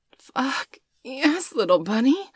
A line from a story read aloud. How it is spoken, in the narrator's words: she groaned